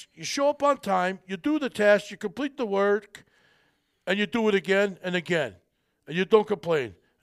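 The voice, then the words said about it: Poor imitation of another person's accent. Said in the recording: “that's probably a bad Sylvester Stallone accent. I normally could do it better. But I'm a little punchy today.”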